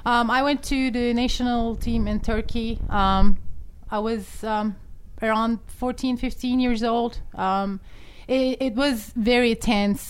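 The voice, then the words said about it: Thick Turkish accent. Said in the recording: “this amazing thick accent ... in the States ... when you're in Turkey”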